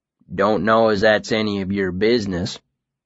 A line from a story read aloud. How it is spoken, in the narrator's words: he growled